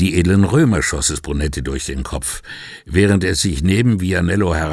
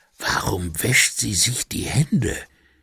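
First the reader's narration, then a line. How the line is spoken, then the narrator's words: Whispering. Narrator (German): Obwohl das Rauschen ihm erlaubt hätte, mit normaler Stimme zu sprechen, flüsterte Vianello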